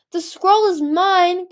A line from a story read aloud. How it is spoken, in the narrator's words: Chameleon screamed